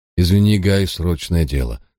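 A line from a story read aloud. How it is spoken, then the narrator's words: Sighing. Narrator (Russian): вздохнул я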